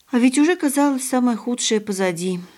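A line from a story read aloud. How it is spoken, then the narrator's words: Sighing. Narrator (Russian): вздохнула пани Кристина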